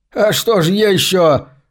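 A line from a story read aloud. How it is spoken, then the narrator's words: Laughing, abruptly breaking off. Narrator (Russian): Джон захохотал, но вдруг осекся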